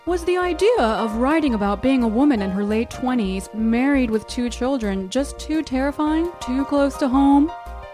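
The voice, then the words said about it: Put-on interviewer voice. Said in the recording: “an interviewer voice”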